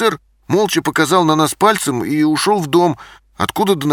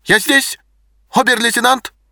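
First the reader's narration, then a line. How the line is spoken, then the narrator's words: Barked. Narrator (Russian): рявкнул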